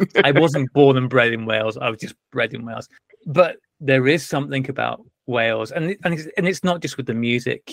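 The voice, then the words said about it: Strong Welsh accent. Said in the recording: “my strong Welsh accent”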